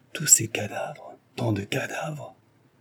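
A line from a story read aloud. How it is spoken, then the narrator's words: Disgusted murmur. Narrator (French): murmura Jean écœuré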